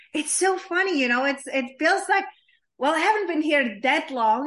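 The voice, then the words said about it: Foreign accent. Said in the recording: “hence my accent, living from small country in small town with unpronounceable name”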